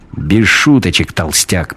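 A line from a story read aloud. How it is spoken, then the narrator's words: Sharp shout. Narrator (Russian): прикрикнул он на него Кристин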